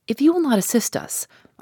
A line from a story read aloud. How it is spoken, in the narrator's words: went on calmly but determinedly